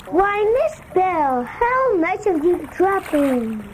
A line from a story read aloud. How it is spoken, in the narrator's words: Hook said in his sweetest voice